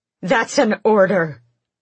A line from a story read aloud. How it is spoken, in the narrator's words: Manon barked